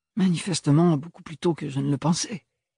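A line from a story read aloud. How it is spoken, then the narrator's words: Low voice. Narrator (French): déduisit Ophélie à mi-voix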